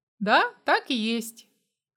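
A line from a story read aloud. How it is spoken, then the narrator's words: Dry reply. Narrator (Russian): ответил я сухо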